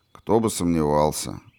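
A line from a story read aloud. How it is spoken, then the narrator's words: Sigh. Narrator (Russian): вздохнул Степан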